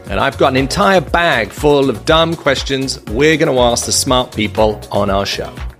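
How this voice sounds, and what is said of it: British accent. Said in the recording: “I'm the one with a British accent”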